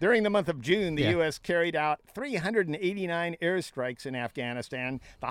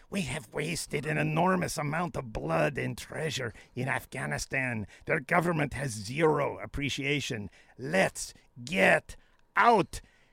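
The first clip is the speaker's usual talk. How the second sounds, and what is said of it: Imitates another person's voice. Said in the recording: “I'm going to do my impression, Donald Trump, now, because I've been working on it ... when you close your eyes, Nathan, that's eerie”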